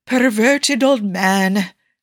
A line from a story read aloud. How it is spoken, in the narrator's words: Nicky sighed mournfully